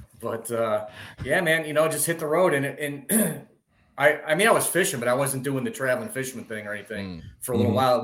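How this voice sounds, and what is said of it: Chicago-area Midwestern accent. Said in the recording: “We originally lived in Illinois, just outside of Chicago, southwest suburbs. ... Accent makes sense now.”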